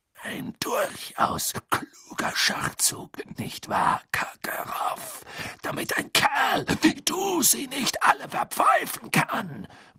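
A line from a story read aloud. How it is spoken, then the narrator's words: Muttered. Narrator (German): murmelte Moody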